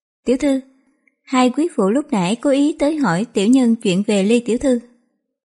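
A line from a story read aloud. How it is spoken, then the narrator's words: Smiling. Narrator (Vietnamese): Tạp Dịch ... mỉm cười ... nói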